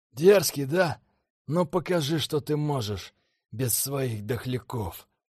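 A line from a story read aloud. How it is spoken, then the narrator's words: Growling. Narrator (Russian): прорычал Герц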